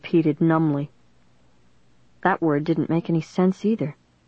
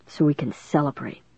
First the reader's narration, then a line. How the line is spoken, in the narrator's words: Dennis whispered in my ear